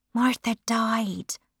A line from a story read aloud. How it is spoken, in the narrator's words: I whispered